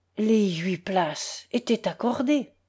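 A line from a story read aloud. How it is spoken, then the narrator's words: Very moved, fearful, half-voiced. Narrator (French): dit d'un air fort ému, il avait peur d'une épigramme et parlait à mi-voix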